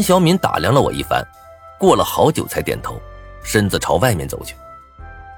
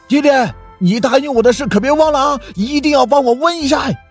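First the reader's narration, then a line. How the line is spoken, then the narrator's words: Loud shout. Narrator (Chinese): 身后的林东则是高声大喊着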